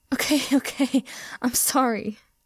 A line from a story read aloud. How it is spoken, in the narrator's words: he wheezed